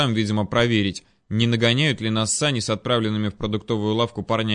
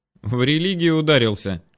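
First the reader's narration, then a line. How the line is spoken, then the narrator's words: Laughing. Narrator (Russian): рассмеялась оказавшаяся не в курсе моих взаимоотношений с сектантами Вера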